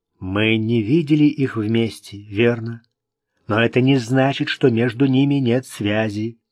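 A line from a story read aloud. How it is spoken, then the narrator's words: Plain. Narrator (Russian): сказал Орен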